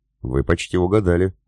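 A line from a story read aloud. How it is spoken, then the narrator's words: Smirking grunt. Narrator (Russian): хмыкнул эсэсовец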